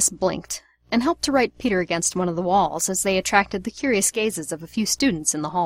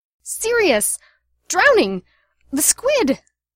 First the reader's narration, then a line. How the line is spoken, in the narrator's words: he shouted